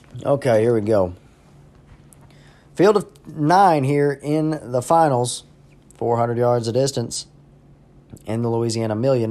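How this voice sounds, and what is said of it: Slightly raspy voice. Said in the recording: “My voice is getting a little raspy”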